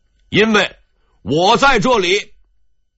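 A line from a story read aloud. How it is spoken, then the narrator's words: Loud, repeating. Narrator (Chinese): 王守仁 大声重复道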